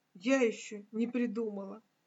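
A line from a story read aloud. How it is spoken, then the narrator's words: Quiet. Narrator (Russian): тихо ответила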